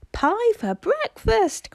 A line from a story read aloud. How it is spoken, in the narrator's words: cried Peter